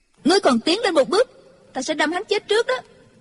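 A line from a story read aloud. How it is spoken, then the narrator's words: Shouted threat. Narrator (Vietnamese): Chu Chỉ Nhược quát lên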